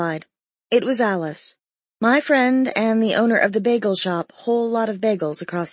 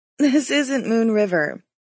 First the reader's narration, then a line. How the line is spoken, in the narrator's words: called with a laugh